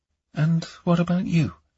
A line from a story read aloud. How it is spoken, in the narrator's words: she asked, her voice gentle